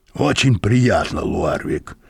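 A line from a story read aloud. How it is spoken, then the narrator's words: Hoarse. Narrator (Russian): прохрипел господин Мозес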